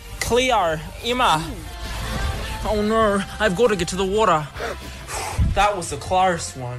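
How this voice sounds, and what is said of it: American faking Australian accent, sounds Kiwi. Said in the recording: “they've been mocking our accents. Something like this ... which sounds very Kiwi ... That's an American trying to sound Australian ... fake ... Clearly fake”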